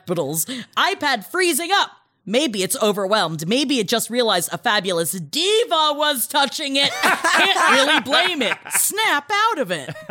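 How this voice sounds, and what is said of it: Yelling, reading loudly. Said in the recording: “I'm yelling all of this because they're all in gap”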